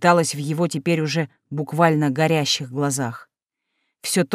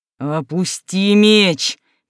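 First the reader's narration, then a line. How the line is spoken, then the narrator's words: Near growl. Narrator (Russian): практически прорычал он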